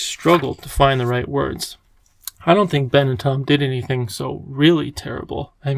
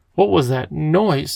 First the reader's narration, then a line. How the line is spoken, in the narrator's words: inquired the professor sharply